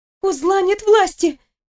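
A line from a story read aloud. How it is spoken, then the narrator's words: Squeaked. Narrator (Russian): пискнула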